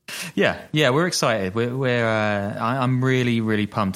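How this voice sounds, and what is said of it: Flat monotone, sarcastic. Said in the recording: “as you can tell from my voice. Doesn't really waver up and down, right?”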